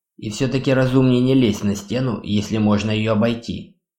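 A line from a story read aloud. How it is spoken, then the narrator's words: Plain. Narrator (Russian): сказал Вир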